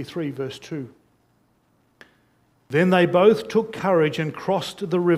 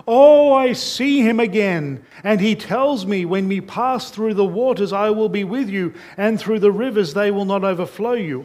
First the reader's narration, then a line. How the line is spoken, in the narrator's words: Christian shouted out with a loud voice